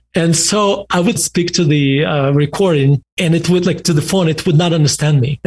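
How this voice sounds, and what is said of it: Man speaking with a noticeable accent. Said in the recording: “as you can tell, I have an accent.”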